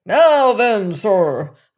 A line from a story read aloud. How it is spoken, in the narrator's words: shouted